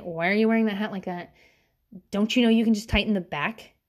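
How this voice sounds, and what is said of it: Snippy, nagging voice. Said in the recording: “in my bitch voice”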